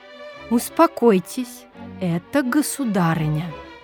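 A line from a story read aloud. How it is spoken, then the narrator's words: Solemn. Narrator (Russian): торжественно произнесла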